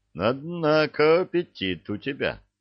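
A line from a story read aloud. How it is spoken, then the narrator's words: Laughing. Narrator (Russian): засмеялся Илья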